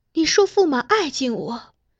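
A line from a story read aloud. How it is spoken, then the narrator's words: Soft, tearful, trembling. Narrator (Chinese): 公主两目盈盈，她以手掩住颤抖的双唇，艰难地控制住彼时情绪，好半天才抬起头来直视金上，轻声道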